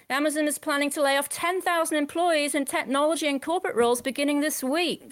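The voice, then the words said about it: Australian female accent. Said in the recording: “I think that's an Aussie female accent.”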